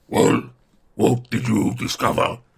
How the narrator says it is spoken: growled the voice of Ugluk

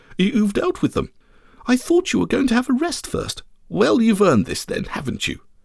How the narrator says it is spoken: she exclaimed

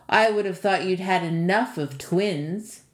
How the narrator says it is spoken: Baba Yaga sneered

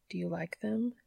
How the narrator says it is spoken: he whispered

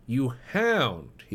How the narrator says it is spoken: he cried

